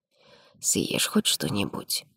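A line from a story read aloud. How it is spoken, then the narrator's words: Quiet, close to ear. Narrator (Russian): тихо сказал Граниди, наклонившись к моему уху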